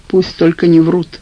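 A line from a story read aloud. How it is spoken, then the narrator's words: Glum. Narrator (Russian): сказал я уныло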